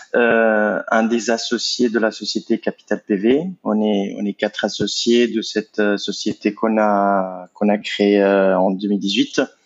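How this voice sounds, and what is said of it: Italian accent speaking French. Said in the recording (French): “je suis italien, vous allez probablement l'entendre de mon accent”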